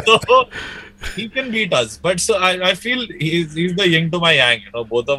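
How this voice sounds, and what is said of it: Usual voice. Nothing is said of it.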